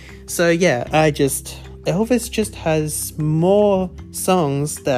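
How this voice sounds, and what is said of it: Usual voice. Nothing is said of it.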